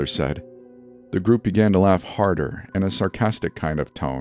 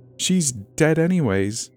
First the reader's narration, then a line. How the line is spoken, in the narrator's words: the leader said through a giggle